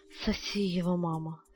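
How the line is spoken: Moaning boy. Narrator (Russian): стонал мальчик

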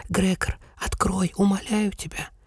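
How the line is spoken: Sister whispering. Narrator (Russian): сестра продолжала шептать

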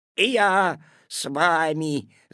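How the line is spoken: Growled. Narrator (Russian): зарычал куцый

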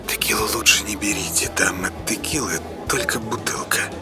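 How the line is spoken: Waitress whispering. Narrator (Russian): официантка Надя прошептала

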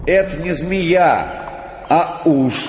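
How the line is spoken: Shout. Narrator (Russian): крикнул кто-то

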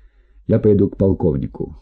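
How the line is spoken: Plain. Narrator (Russian): сказал он

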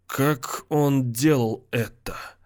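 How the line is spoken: Fading voice. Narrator (Russian): спросил он угасающим голосом

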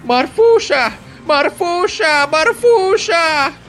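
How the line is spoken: Shouting. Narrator (Russian): закричала Рататиха

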